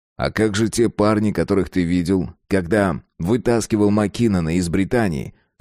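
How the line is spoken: Plain. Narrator (Russian): спросил Фредерик

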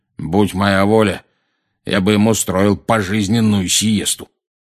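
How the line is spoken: Loud grumbling over TV. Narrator (Russian): проворчал дядя Вернон, заглушив конец фразы диктора

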